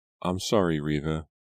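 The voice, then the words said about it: Tiny, small voice. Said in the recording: “in a tiny voice”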